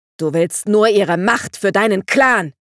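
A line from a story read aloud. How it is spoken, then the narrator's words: Shouted. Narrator (German): schrie Dandelion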